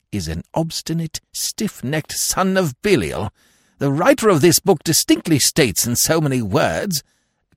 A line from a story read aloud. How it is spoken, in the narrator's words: observed Lord Emsworth bitterly